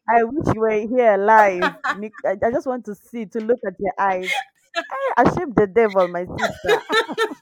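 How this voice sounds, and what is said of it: Kenyan accent. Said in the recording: “she has an amazing accent... Kenyan accent”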